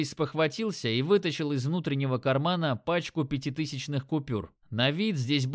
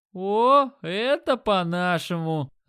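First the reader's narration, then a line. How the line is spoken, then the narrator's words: Delighted. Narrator (Russian): Обрадовался Димон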